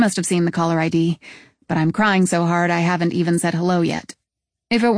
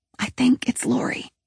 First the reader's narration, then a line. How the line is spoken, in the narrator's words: Jen whispers